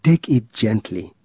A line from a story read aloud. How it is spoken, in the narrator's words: said John